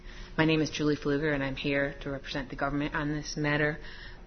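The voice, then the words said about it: Voice affected by a cold. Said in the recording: “I have a cold.”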